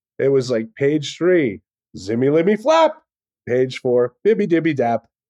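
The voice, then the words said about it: Imitates another person's voice. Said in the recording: “that's a very effective impersonation of Dr. Seuss there”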